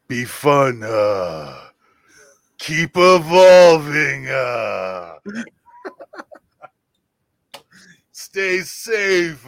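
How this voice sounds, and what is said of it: Imitates another person's voice. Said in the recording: “your best version of your Triple H impression ... It's horrible, dude.”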